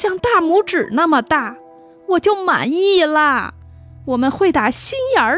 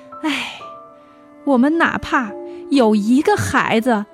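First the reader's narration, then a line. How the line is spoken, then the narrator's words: Sighing wife. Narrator (Chinese): 妻子叹了口气，回答说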